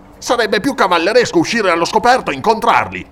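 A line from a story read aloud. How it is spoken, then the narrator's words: Angry outburst. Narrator (Italian): sbottò il conte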